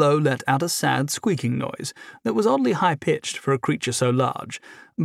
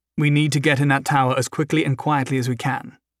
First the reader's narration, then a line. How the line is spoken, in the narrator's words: Humphrey said